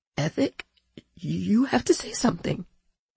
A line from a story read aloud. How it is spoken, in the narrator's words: she whispered